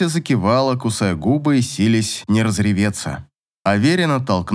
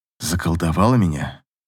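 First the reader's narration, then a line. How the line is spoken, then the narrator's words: Whispered. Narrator (Russian): Клим уперся лбом в ее лоб и прошептал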